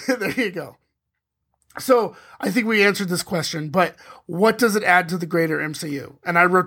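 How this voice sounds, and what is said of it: Strained, fading voice. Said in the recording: “I am losing my voice”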